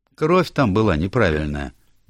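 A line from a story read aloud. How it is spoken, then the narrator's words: Businesslike tone. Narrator (Russian): деловым тоном сказал доктор Стиллингфлит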